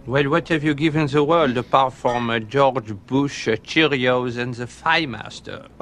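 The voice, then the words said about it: French accent. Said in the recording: “a Frenchman... my accent. I am French.”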